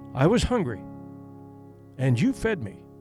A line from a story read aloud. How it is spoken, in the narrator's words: the voice said